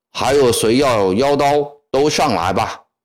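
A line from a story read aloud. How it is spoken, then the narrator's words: Shouting. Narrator (Chinese): 他对台阶下的军官们喊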